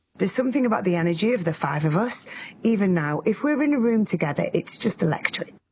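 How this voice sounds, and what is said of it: Accent with a little twang. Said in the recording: “It's that accent. She's got that little twang.”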